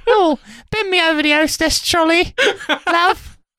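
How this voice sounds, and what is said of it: Attempted Norfolk rural English accent. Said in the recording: “I don't know if that's a Norfolk accent. I can't do a Norfolk accent. ... the accent they have is like West Country ... rural”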